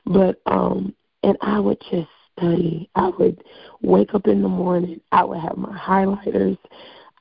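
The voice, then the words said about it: Hoarse, strained voice. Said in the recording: “My voice has gone out from singing.”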